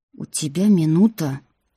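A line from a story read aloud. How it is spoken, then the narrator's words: Through gritted teeth. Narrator (Russian): сквозь зубы сказал Деймон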